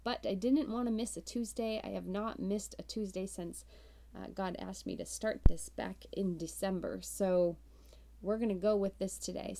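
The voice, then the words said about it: Congested voice from a cold. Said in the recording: “I have a bit of a cold, so I may sound a little bit different today ... without coughing”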